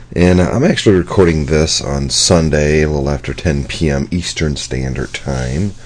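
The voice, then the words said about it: Hoarse, scratchy voice. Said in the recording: “If I sound a little funny, it's because my voice is I don't know, it's a little hoarse today. It's a little scratchy.”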